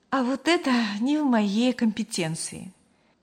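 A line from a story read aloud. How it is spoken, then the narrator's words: Slightly sad, smiling. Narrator (Russian): немного грустно улыбнулась Мария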